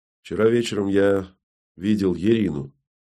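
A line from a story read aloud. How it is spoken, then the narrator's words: Grumbling mutter. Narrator (Russian): буркнул он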